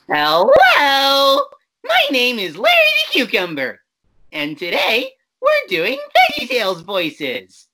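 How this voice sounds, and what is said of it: Cartoon cucumber character voice. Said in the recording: “do a Larry voice”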